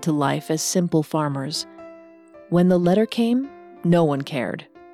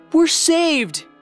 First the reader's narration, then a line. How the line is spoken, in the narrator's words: cried Evangeline